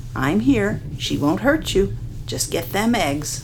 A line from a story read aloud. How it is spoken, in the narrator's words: Grandma said softly